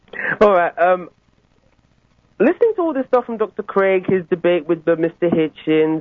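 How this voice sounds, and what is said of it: Mixed, hard-to-place accent. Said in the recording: “You sound just like other people in the audience... My accent is a weird composite of living all over the place”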